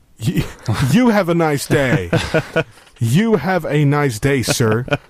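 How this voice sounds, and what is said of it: Put-on American accent. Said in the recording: “do an American voice”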